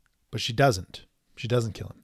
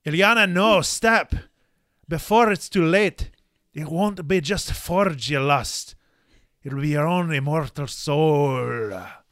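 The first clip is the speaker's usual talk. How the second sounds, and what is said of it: Put-on accent. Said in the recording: “could you do that again in the accent?”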